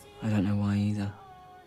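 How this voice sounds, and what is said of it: Flirtatious put-on voice. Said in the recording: “are you trying to flirt? ... Then why are you putting on that voice?”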